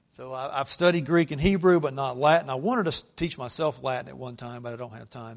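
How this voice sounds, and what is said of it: North Georgia Southern accent. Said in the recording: “my North Georgia accent”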